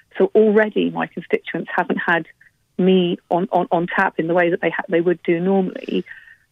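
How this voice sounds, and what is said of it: Voice sounds weak and unwell. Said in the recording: “you might be able to hear from my voice, I've been very unwell”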